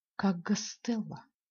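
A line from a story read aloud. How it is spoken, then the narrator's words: Said quietly. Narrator (Russian): тихо сказал Юра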